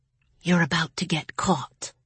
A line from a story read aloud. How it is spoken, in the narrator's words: whispered